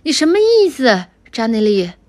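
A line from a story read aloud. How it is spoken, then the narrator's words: Loud shout back. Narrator (Chinese): 乔邦尼高声的喊了回去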